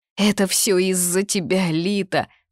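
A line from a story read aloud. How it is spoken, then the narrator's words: Sobbing. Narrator (Russian): всхлипнула Эмилия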